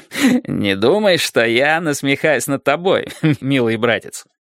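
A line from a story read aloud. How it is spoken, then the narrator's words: Reply after stopping laughing. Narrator (Russian): ответил сэр Дэниел, перестав смеяться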